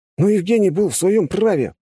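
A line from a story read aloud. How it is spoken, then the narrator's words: Young man's exclamation. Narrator (Russian): воскликнул молодой паренек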